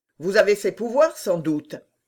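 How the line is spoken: Curt, quarrelsome question. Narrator (French): demanda Mazarin d'un ton bref et querelleur

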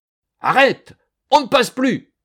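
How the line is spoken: Officer shouting. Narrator (French): hurla l'officier de garde

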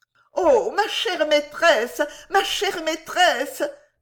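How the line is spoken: Distraught young woman crying. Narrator (French): s'écria la jeune personne d'un air égaré

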